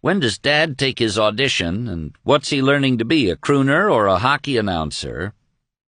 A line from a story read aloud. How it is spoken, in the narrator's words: the others jeered